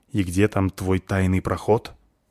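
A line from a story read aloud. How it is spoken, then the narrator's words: Angry hiss. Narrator (Russian): сердито шипит спичка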